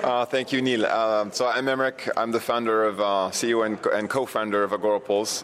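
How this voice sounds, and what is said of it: Slight French accent. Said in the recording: “I am 50% French and 50% American ... you'll hear a little accent in, here here and there, just a little”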